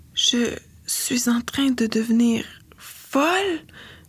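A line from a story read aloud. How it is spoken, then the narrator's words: Weak mumbling. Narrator (French): marmonne-t'elle faiblement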